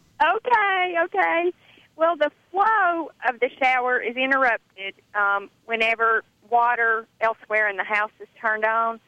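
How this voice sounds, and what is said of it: Regional American accent. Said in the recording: “Can you just say shower again? It was really fun ... making the fun of my accent”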